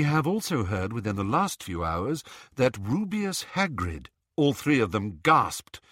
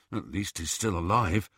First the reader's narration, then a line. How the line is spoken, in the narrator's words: muttered Ron